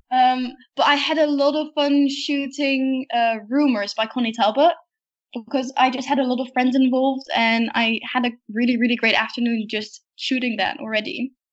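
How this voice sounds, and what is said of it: Speaks with a charming accent. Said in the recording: “are you hearing this accent? Is this just adorable or what?”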